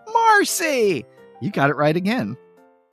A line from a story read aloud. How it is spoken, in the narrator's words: Peppermint Patty now screams to the heavens